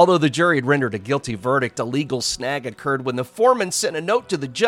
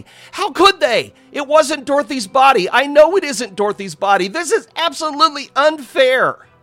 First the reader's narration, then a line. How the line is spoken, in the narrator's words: he cried out to his attorney